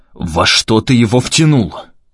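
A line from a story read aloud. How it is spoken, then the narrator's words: Unexpectedly angry question. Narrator (Russian): неожиданно зло спросил Максим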